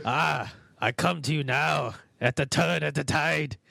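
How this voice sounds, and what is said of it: Unidentifiable put-on accent. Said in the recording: “I don't know what accent that was, but I liked it”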